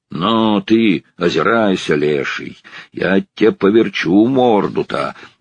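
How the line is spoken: Angry shout. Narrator (Russian): крикнул он сердито на лошадь

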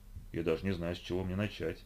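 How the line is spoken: Mumbled. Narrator (Russian): пробормотал он

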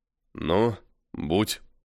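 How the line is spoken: Voice breaking. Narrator (Russian): дрогнувшим голосом сказал Постников

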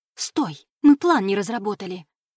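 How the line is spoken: Hissed after her. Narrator (Russian): зашипела ей вслед Алекс

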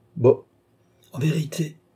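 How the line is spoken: Exclaiming. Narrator (French): s'écria Tavernet

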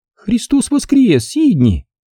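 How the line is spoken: Joyful shout. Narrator (Russian): радостно закричала тетушка Эдна

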